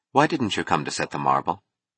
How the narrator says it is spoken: She asked, her voice flat

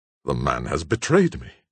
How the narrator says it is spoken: Monroe at length bitterly exclaimed

